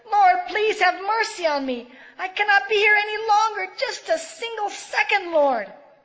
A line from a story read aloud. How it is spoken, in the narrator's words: she shouted to the Lord